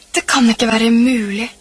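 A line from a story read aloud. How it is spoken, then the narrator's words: Groaning. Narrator (Norwegian): stønnet han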